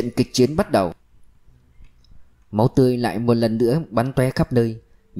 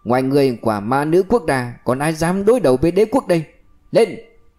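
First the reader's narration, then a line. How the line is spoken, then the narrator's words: Loud laughter. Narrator (Vietnamese): Kẻ kia cười lớn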